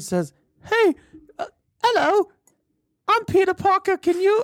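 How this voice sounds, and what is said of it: Put-on British accent. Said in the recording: “Why are you making him British?”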